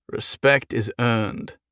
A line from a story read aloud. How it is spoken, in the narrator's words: Jason said wearily